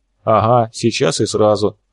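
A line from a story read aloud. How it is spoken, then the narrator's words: Snort. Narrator (Russian): хмыкнул Степа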